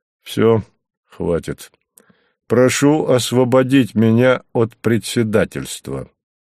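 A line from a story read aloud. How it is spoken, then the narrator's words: Gloomy. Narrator (Russian): мрачно сказал он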